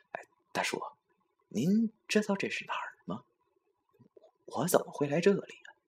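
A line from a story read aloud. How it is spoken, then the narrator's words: Humble, meek. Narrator (Chinese): 我只好低声下气的对这位大叔说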